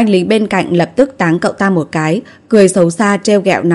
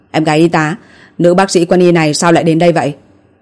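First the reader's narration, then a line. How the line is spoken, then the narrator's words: Giggling question. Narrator (Vietnamese): Chu Tường cười hì hì hỏi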